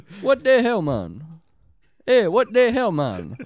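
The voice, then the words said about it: Put-on Jamaican accent. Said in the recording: “That's my Jamaican accent. ... That's my Jamaican, guys.”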